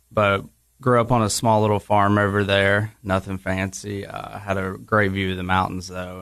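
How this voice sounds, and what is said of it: Appalachian East Tennessee accent. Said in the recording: “That's where some of my words and my accent are from. ... It's a little more Appalachian over there”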